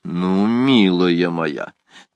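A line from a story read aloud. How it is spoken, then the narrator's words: Solemn. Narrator (Russian): торжественно произнесла госпожа Алоиза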